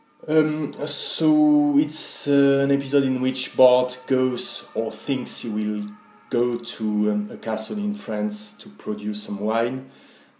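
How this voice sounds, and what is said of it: French accent speaking English. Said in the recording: “a native Frenchman ... Sorry for my accent.”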